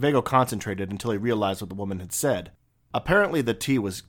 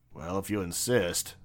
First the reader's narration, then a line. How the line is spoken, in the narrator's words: said Viekko wearily